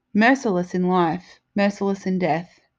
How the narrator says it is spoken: he sighed

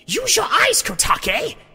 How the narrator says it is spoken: Koyume screeched

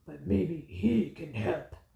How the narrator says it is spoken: growled the Bat Hound

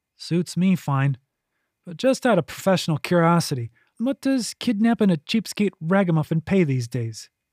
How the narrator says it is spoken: laughed

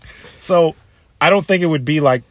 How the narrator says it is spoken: Kung Lao scream

